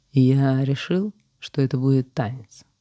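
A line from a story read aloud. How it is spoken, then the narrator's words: Calm continuation. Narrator (Russian): спокойно продолжил победитель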